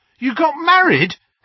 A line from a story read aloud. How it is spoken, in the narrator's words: Harry yelped